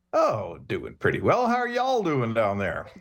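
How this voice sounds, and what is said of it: Slight Texas twang. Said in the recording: “Did you pick up y'all since you have arrived in Texas? ... You threw a little twang on that.”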